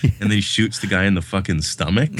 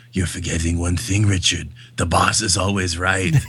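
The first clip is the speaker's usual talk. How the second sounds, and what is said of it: Tough guy actor voice impression. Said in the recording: “That's a pretty good impersonation of him, though ... this kind of tough guy actor voice, and it's hilarious. It's so bad.”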